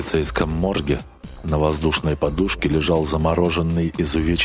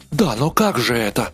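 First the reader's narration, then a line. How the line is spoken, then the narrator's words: Startled cry. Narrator (Russian): вскрикнул полисмен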